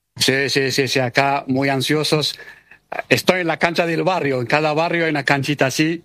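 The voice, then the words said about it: Argentine Buenos Aires Spanish accent. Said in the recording (Spanish): “con acento español bien argentino, bien porteño”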